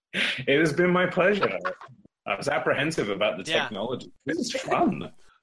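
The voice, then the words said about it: British accent. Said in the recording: “this actually is my real accent... I actually really am British”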